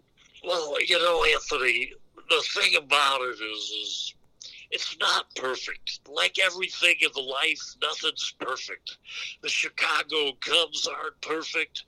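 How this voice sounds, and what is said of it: Imitates a baseball broadcaster's voice. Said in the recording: “the Harry Carey impression ... my Harry Carey impersonation isn't perfect”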